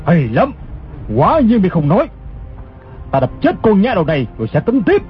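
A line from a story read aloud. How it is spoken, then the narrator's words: Angry shout. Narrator (Vietnamese): Gã giận dữ quát lên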